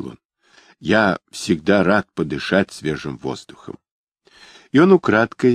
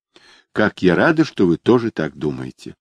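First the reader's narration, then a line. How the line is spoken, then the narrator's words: Sighing. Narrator (Russian): вздохнула Недда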